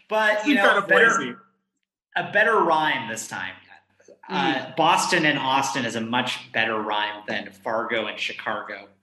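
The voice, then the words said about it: Chicago Midwest accent. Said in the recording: “your excellent Chicago accent ... That was a true blue Midwest accent”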